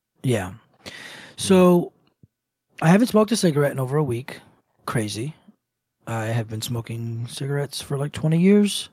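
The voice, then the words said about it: Hoarse, blown-out voice. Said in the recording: “you can already tell probably by listening to me, I lost my voice. Blew my voice out. ... voice gone.”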